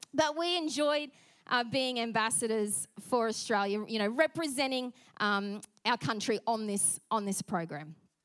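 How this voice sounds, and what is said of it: Australian accent with twang. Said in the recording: “our Aussie accent ... lay on the Aussie accent a little bit thicker ... put that twang in there a bit thicker”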